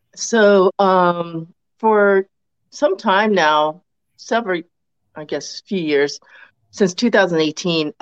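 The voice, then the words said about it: Sick voice with a cold. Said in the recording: “I have a throat injury ... I have a cold for a couple weeks now”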